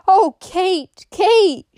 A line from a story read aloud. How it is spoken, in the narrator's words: she cried